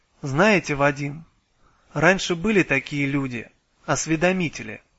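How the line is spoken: Calm, dispassionate. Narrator (Russian): спокойно и бесстрастно сказала

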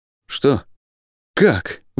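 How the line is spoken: Forced out. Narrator (Russian): выдавил он из себя

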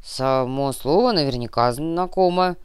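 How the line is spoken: Uncertain mutter. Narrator (Russian): неуверенно пробормотал Самуэль

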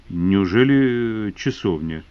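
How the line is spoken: Hesitant question. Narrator (Russian): спросил неуверенно

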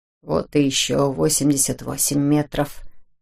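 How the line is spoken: Muttered. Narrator (Russian): пробормотал он

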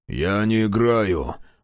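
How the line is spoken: Grumble. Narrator (Russian): проворчал Мюррей

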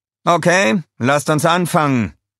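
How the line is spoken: Cheerful. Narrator (German): sagte er fröhlich

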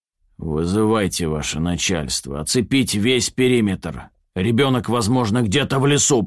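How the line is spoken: Growling. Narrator (Russian): прорычал товарищ подполковник

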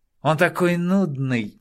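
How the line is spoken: Angry young woman. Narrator (Russian): сердито произнесла девица

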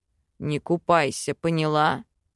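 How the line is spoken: Growled. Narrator (Russian): Рыкнул он

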